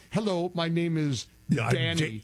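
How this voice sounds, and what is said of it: Imitated thick Indian accent. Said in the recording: “Every single one of them had the thick Indian accent.”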